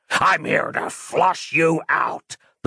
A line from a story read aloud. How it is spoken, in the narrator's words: the Dream Demon snarled